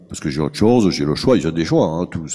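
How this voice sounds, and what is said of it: Strong French accent like Cantona's. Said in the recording (French): “un peu comme Eric Cantona ... c'est pas possible son accent. Moi en fait quand j'entends ... je n'entends que l'accent”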